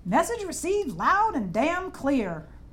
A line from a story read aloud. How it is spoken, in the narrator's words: Ro shouted